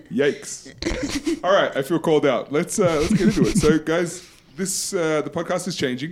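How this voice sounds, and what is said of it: Loud voice with Australian accent. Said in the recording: “that Australian mentor... Loud... We can hear your accent, buddy.”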